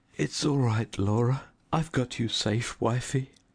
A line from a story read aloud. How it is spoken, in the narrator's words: cried